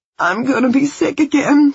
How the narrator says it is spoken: she moaned

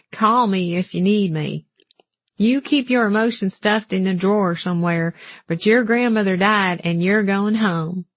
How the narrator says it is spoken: he affected the drawl he liked to associate with Alabama

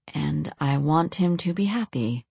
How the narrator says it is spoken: Lorelei answered evenly

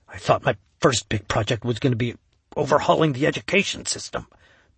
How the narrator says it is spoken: Ben muttered to himself

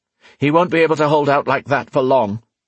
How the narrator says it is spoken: Rian observed in a tense voice

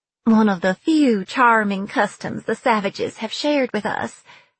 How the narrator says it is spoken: she said brightly

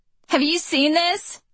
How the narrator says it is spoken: her voice bubbling with laughter, and says

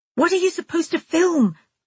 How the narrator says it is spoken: I yelled, beginning to feel frantic

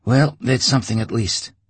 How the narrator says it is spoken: he sighed

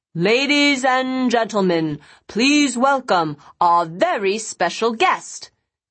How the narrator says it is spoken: a voice boomed out

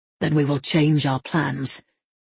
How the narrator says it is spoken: Matthew said curtly

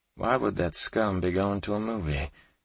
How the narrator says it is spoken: Kate whispered, sounding more incensed than ever

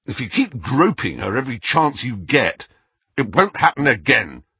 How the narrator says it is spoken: said Harry harshly

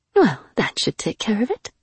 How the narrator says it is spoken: she murmured to herself

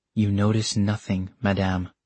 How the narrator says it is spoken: he said quietly

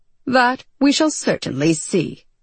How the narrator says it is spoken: John said with a dry snort

